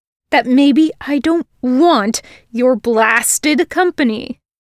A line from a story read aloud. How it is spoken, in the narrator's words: he snarled